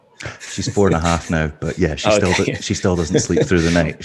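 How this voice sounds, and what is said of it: Very calm, soft speaking voice. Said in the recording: “speaking very calmly, like kind of channeling this calm voice ... sexy voice”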